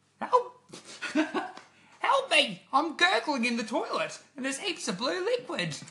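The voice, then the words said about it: Squeaky gurgly hamster character voice. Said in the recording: “a squeak, but a bit demonic, of the hamster, a gurgly squeak ... in the voice of the hamster ... do the hamster voice?”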